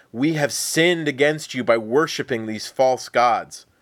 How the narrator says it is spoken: the people cried out to Yahweh for mercy, saying

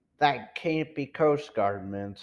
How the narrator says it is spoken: said Mr

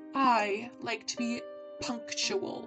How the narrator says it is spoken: she grunted

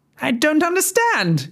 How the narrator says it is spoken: she shrieked

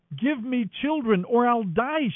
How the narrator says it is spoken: she exclaimed

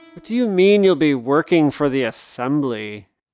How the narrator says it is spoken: Susie's dad snorted

